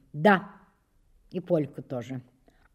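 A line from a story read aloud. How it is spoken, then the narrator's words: Restrained, embarrassed boy. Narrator (Russian): Мальчик вдруг густо покраснел, но ответил сдержанным тоном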